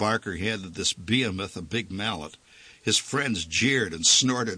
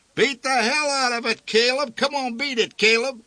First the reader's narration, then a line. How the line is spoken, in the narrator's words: yelled